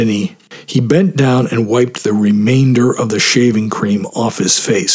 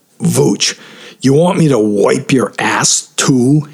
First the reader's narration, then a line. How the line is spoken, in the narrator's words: He sneered